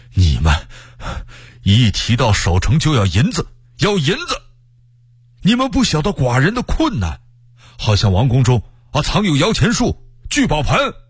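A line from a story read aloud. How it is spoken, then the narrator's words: Breathless. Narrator (Chinese): 福王闻听，喘着气儿说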